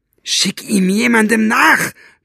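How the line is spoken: Bellowing. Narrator (German): brüllte Buster

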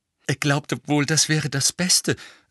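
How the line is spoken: Rather breathless. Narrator (German): sagte Hermine ziemlich atemlos

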